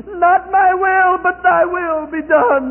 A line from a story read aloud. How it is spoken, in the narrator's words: Like a wounded animal in the night, he cries out